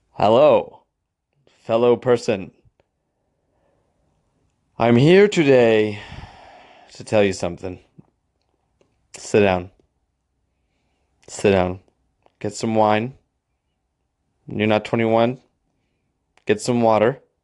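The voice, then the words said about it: Mock formal character voice. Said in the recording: “my impression of a college denial letter”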